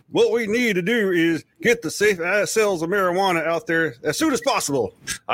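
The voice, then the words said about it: Put-on Southern Virginian accent. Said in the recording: “I'm trying to go for the southern thing. ... I don't know if your Virginian accent held through the possible, but it was still pretty good.”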